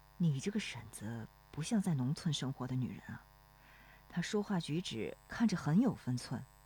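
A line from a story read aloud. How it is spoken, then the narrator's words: Low-voiced question. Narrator (Chinese): 罗生低声问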